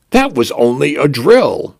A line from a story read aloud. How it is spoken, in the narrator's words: announced cheerfully